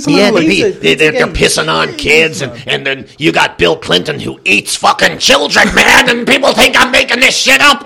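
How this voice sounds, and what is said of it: Impression of Alex Jones. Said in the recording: “Fucking Alex Jones, man. That's a great impression. He is that.”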